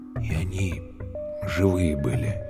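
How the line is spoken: Quiet. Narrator (Russian): тихо сказал Калюня

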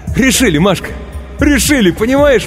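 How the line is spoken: Excited shouting. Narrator (Russian): восторженно кричал он

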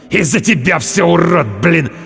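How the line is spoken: Hissed. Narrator (Russian): Прошипел он

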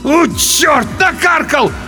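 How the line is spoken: Loud wail. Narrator (Russian): В голос взвыл тот

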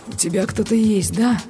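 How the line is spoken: Dull, muffled question. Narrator (Russian): глухо спросил он

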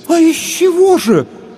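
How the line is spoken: Puzzled women in unison. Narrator (Russian): в один голос воскликнули озадаченные женщины

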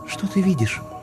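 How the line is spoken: Whispered question. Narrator (Russian): шепотом спросила она у меня

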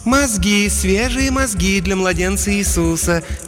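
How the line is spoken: Soft contralto coo. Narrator (Russian): мягким контральто проворковала ферма

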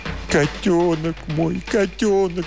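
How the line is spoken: Sobbing. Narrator (Russian): всхлипывал

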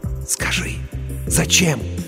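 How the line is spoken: Trembling excited whisper. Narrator (Russian): Дрожа от возбуждения, рулевой прошептал ей

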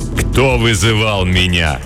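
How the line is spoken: Menacing dark creature asking. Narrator (Russian): грозно спросило темное существо

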